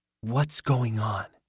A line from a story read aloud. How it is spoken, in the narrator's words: whispered